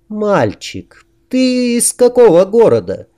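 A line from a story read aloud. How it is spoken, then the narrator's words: Sweet ingratiating voice. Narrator (Russian): Очень милым голосом, с вкрадчивыми интонациями, которых никогда в нем не замечалось, поддержала общий штурм Дина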